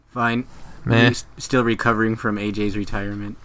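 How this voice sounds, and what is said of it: Sad, dejected tone. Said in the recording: “You sound like your dog died.”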